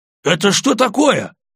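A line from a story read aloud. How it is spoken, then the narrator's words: Almost shouting. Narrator (Russian): почти закричал он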